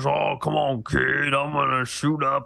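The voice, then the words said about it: Poor imitation of an actor's character. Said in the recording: “bad impersonation”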